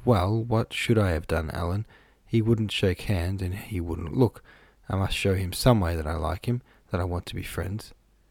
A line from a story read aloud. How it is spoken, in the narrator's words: she blushed and whispered